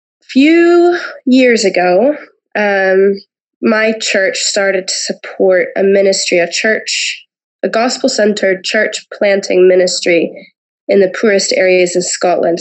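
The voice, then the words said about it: Acquired Scottish-influenced accent. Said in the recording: “having a Scottish husband and being musical, and so I pick up accents really quickly ... coming over here, it just just picked it up ... You kind of you hope for an accent and you actually got one.”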